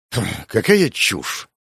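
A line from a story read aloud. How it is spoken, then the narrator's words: Scornful snort. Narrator (Russian): фыркнул мужчина в куртке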